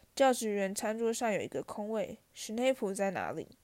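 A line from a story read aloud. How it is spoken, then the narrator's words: Whispered. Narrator (Chinese): 哈利低声对荣恩说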